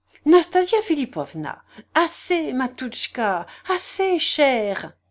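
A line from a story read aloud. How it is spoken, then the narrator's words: Sudden exclamation. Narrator (French): s'écria-t-elle tout à coup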